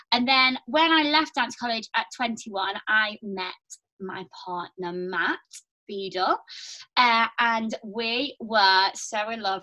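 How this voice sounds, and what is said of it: Liverpool accent. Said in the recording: “I moved from Liverpool. I don't know if you can tell my accent.”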